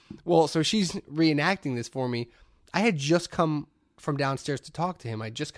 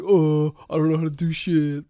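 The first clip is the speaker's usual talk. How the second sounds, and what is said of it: Mocking dim-witted man's voice. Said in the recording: “every time a woman does an impersonation of a guy, they always talk like this”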